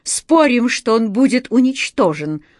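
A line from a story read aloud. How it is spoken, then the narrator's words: Exclaiming. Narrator (Russian): воскликнул Паоло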